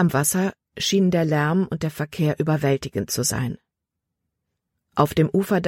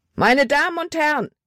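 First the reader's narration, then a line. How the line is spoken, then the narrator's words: Shouted. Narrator (German): schrie er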